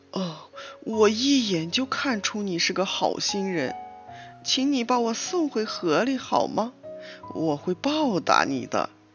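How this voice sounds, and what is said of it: Gentle, mild storytelling voice. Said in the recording (Chinese): “鳄鱼用温和的声音说”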